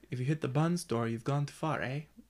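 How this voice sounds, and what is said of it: Awkward put-on Canadian accent. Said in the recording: “say a line in a Canadian accent ... you're playing with your tongue. I feel like your tongue's getting in your way a little bit”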